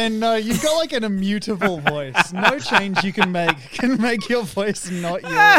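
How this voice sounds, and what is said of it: Usual voice. Nothing is said of it.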